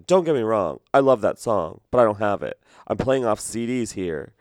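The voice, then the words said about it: Aggressive imitated male DJ voice. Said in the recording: “He was kind of aggressive. I don't know if you can tell that from my impersonation.”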